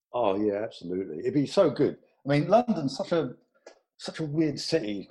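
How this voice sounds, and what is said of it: London accent. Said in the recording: “I know you're not a Londoner, you know, in terms of location, but you have the accent”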